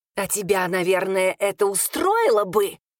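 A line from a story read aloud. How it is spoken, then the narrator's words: Hissing. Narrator (Russian): зашипела на нее первая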